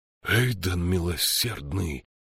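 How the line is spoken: Groaning. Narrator (Russian): простонал Диарнот

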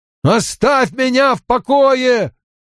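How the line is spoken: Shouted. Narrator (Russian): выкрикнул он

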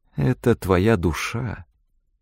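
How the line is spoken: Quiet. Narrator (Russian): тихо закончила она

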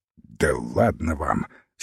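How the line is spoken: Angry. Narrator (Russian): сердито сказал Рук

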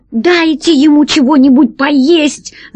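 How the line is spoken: Shouting. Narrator (Russian): закричала Алиса

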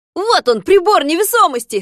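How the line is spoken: Shout. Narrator (Russian): закричал доктор Пилюлькин

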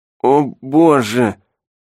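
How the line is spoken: Groaning. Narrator (Russian): простонал Дэвид

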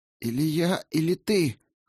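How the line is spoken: Hoarse, strained. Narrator (Russian): хрипло выдавил он

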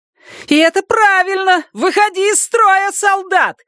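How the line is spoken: Hysterical screaming. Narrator (Russian): истерично завопила Дениз

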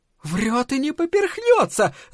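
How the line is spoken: Shout. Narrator (Russian): закричала миссис Дулин

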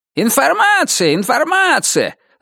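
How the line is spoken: Shouting to crowd. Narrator (Russian): закричал он в толпу

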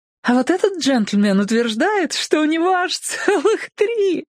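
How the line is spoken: Bursting laughter, cut off. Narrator (Russian): Блондинка расхохоталась, так и не закончив фразы

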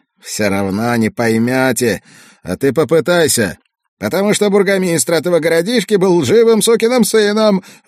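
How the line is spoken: Sudden shout. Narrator (Russian): внезапно выкрикнул он

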